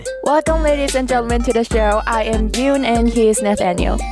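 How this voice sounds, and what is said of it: Korean accent speaking English. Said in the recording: “you have an accent ... I'm an exchange student from South Korea ... my accent might be a little weird”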